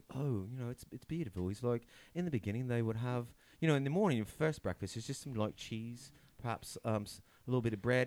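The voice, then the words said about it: Put-on British accent. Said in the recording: “your British accent”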